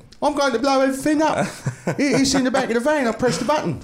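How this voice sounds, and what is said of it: Bad English accent, Don Cheadle impression. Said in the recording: “Like Don Cheadle in that shitty English accent ... It's the worst English accent I've ever seen.”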